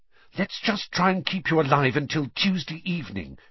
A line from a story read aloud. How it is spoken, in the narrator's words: she said desperately